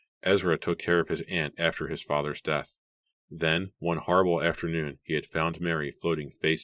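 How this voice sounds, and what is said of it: Usual voice. Nothing is said of it.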